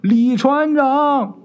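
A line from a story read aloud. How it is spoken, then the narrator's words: Calling out. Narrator (Chinese): 刚喊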